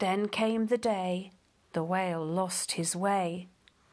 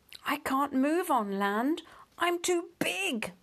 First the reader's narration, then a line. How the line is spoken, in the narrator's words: moaned the whale